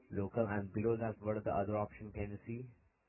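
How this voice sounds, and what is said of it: Thick accent, hard to understand. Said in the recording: “your accent's a little bit thick sometimes. I can't understand you.”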